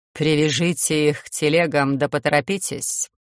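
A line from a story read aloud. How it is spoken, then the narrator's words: Cold command. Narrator (Russian): холодно скомандовала мечта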